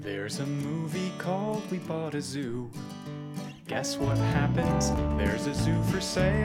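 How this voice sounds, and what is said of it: Usual voice. Nothing is said of it.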